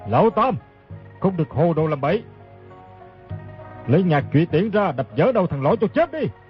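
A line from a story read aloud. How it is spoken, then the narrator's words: Shouting again. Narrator (Vietnamese): Đoàn Viên Khánh lại quát lên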